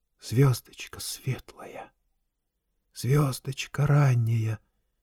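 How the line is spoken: Entranced whisper. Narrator (Russian): зашептал он, не ведая, что творит

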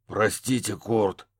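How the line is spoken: Hoarse rasp. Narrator (Russian): прохрипел детектив

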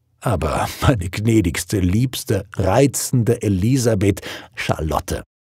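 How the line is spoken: Laughing. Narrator (German): er lachte

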